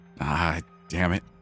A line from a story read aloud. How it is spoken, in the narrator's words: I hissed to myself